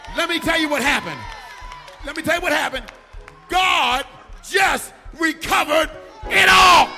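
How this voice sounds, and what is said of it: Shouting preacher. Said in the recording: “I'm shouting.”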